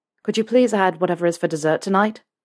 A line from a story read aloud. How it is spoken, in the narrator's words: Harry asked quickly